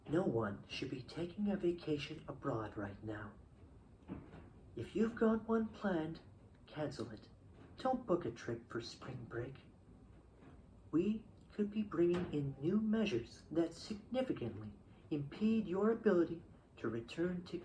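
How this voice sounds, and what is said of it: Impression of Justin Trudeau. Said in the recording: “my Trudeau impression. I don't know what you guys think of it. ... If it's terrible, let me know.”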